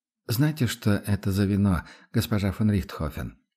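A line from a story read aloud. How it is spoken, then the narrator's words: Quiet question. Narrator (Russian): спросил он все так же тихо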